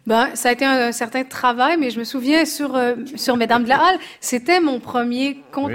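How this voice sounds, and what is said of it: Québécois French accent. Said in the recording (French): “vous avez un très bel accent québécois”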